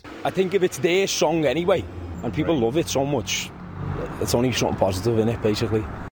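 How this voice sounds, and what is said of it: Liverpool accent. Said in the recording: “distinctive accent is from Liverpool”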